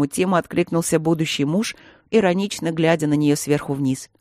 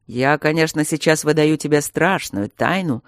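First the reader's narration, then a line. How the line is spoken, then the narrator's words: Mocking. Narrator (Russian): насмешливо сказал Демьян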